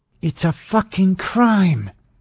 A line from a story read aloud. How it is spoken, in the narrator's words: said through her teeth